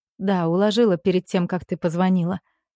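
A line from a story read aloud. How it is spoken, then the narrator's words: Quiet. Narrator (Russian): проговариваю тихо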